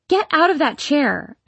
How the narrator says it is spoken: I yelled

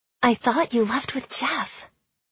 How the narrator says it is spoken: Lisa whispered

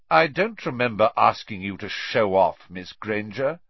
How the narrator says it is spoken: said Snape coldly

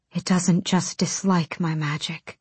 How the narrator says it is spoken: she breathed

